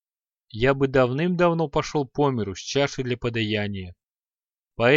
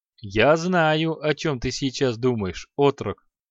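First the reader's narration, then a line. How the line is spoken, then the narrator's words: After laughing. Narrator (Russian): провосил он, отсмеявшись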